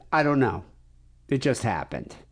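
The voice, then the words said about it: Put-on Massachusetts accent. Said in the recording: “You got the Massachusetts accent there pretty good.”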